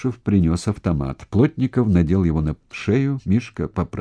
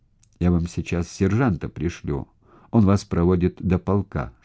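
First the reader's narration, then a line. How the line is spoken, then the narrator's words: Plain. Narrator (Russian): сказал Плотников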